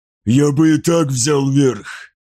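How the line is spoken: Hoarse wheeze. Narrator (Russian): просипел Фозис

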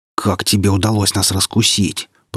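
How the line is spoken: Hissing. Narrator (Russian): прошипел лже-капитан

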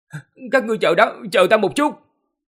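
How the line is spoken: Breathless panting. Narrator (Vietnamese): Người đúng củi chạy chậm nhất, thở hổn hển, nói

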